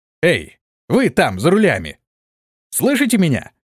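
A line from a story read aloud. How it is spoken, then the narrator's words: Shouted. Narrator (Russian): крикнул Антон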